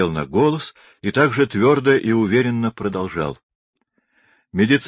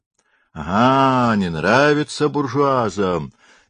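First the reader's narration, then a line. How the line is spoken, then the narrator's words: Cheerful shout from gallery. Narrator (Russian): весело крикнули с хоров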